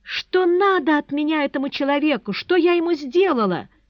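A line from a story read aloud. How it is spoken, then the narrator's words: Bursting into sobs. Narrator (Russian): И разрыдалась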